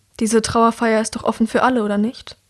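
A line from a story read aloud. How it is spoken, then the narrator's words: Sighing. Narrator (German): Er seufzt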